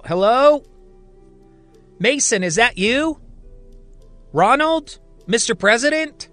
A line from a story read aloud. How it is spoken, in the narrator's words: she yells out